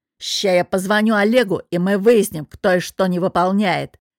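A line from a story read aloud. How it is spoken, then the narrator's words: Growled. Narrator (Russian): прорычал Иван Петрович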